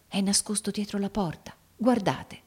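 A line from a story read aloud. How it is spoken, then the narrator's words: Whispered. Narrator (Italian): bisbigliò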